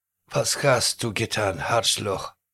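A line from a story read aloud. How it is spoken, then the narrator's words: Groaning, just regained consciousness. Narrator (Russian): простонал немец, придя в сознание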